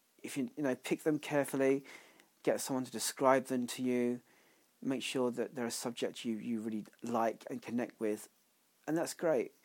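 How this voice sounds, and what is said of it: Congested voice from a cold. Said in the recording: “I've got a bit of a cold still”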